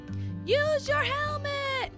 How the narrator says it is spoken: cried Ryder

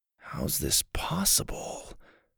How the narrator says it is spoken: Dillon mumbled to himself

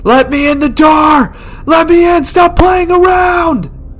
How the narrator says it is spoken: He's screaming

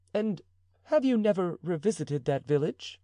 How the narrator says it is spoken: eagerly asked Madame de Chevreuse

